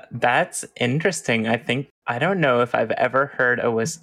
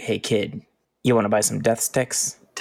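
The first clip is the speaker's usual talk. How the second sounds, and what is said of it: Deep whispering character voice. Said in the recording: “deep voice whispering”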